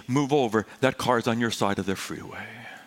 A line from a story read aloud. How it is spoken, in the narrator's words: angels that whispered to me